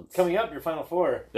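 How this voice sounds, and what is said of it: Radio announcer voice. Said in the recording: “nice radio voice”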